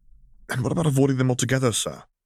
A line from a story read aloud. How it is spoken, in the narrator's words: He asked desperately